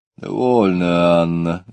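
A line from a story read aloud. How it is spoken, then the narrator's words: Grumbling. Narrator (Russian): ворчал доктор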